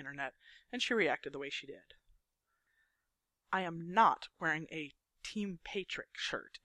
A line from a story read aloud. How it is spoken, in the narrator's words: Andy says firmly